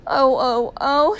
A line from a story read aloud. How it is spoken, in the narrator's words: she sobbed